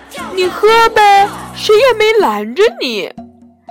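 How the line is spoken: Cheerful, grinning. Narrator (Chinese): 熊爸爸笑嘻嘻地说

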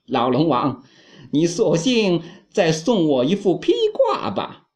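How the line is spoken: Laughing. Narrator (Chinese): 悟空笑着对龙王说

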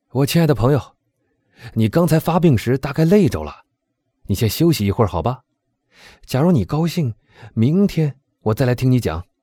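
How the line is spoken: Loud. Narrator (Chinese): 他大声说道

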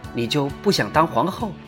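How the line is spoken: Low voice, blunt question. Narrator (Chinese): 童夫人……压低声音开门见山地问

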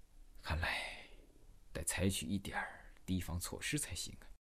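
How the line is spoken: Murmuring to himself. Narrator (Chinese): 他喃喃自语说

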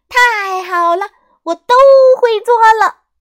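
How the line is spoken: Loud joyful shout. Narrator (Chinese): 大声喊道

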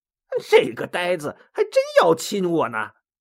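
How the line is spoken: Silent amused thought. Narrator (Chinese): 孙悟空心里暗笑

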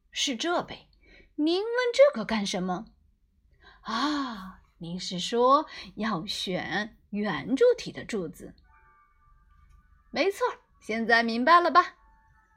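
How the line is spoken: Hearty laughter. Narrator (Chinese): 达芬奇哈哈大笑起来

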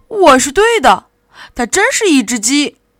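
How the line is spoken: Startled cry. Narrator (Chinese): 玛丽莲惊叫

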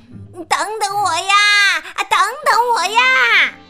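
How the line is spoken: Loud call. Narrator (Chinese): 青蛙大声叫道

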